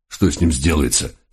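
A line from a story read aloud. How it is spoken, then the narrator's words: Hoarse voice. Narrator (Russian): сипло откинулся волк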